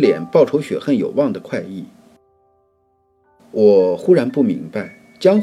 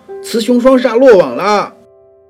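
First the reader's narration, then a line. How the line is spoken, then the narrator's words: Loud shrill shriek. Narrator (Chinese): 那个十八里铺的肥乞丐，他一看到我们，竟然高声尖叫道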